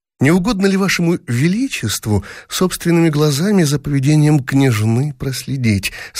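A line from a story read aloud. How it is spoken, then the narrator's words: Sweet ingratiating voice. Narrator (Russian): Сладким заискивающим голоском сказала мачеха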